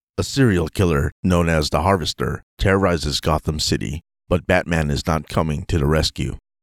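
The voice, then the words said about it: Voiceover narration voice. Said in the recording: “trying my voiceover recording voice here, so it's going to sound a little different”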